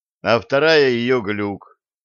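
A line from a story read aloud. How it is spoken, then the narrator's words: Dejected sigh. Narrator (Russian): удрученно вздохнул Блад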